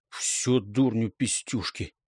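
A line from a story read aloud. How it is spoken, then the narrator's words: Anxious mutter. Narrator (Russian): тревожно буркнул Угляк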